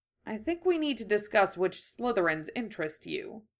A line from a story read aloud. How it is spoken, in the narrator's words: he said dryly